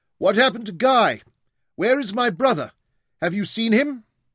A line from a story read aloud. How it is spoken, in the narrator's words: Dorian shouted across the deck to him